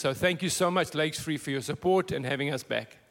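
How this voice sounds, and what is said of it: Minnesota accent. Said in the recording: “you really got that Minnesota accent down”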